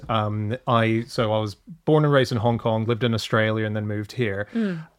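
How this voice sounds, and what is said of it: Mixed accent with forced R's. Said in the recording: “I do have a weird accent ... I put R's. I have a forced R in a lot of stuff”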